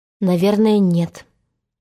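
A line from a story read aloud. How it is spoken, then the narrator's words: Timid question. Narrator (Russian): спросил робко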